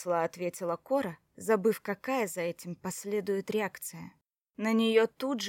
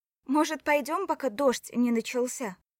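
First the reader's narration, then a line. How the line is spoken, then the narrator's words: Shouted. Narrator (Russian): крикнула Кора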